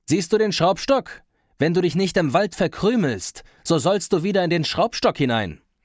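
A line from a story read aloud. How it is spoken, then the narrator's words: Calling out. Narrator (German): Das Schneiderlein rief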